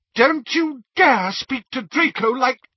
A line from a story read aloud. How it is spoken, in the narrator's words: said Narcissa furiously